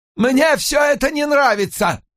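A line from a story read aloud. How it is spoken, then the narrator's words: Barking. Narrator (Russian): рявкнул Уолш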